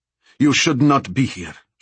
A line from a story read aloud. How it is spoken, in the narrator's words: snapped